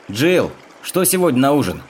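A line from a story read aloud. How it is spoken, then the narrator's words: Shouting. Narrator (Russian): прокричал Генри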